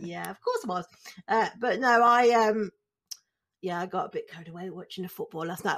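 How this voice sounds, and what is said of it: Slightly hoarse voice. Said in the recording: “I'm just a little bit hoarse”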